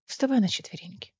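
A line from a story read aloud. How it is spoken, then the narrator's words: Barely audible command. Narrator (Russian): велел Кассиан так тихо, что она едва расслышала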